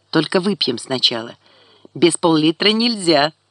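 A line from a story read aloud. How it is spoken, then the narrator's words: Laughing. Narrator (Russian): засмеялась она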